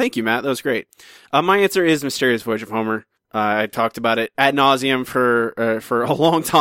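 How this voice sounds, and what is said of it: Usual voice. Nothing is said of it.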